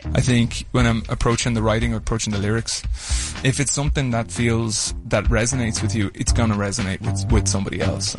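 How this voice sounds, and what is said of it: Adorable accent. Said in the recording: “how adorable his accent is”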